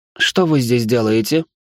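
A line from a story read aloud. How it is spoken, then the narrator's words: Cold question. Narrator (Russian): холодно спросила она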